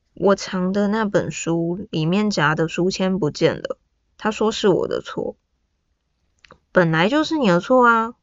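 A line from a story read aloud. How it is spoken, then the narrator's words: Flat dry voice. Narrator (Chinese): 声音干扁，答道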